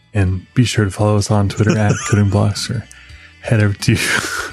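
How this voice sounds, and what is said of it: Public radio announcer voice. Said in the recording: “my NPR voice... Morning edition... the morning edition voice”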